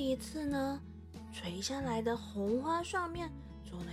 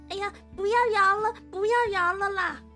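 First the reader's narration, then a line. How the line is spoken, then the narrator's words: Loud woman. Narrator (Chinese): 她大声的说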